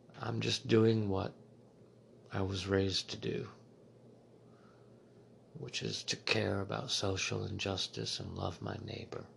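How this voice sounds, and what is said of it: Monotone, soothing voice. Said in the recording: “I've got this monotone voice, kind of soothing”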